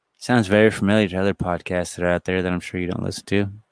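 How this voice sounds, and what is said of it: Public-radio announcer style voice. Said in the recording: “This is my NPR voice.”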